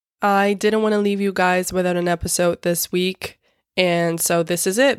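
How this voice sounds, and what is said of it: Sick-sounding voice. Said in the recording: “my voice is terrible. I'm sick, as you can probably tell.”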